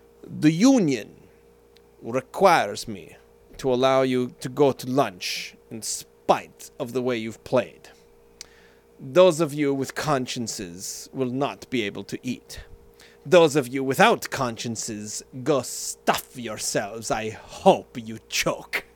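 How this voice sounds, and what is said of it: Russian accent, imitating Alexander Godunov. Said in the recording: “Alexander Godunov ... his beautiful Russian accent, which turned into a German terrorist for Die Hard”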